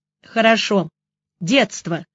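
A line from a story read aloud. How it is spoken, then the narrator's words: Smirking grunt. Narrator (Russian): хмыкнул Костин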